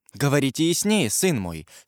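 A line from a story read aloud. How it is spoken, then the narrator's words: Plain. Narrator (Russian): сказала Екатерина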